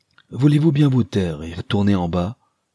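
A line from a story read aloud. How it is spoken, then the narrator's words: Exclaimed. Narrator (French): s'écria Mrs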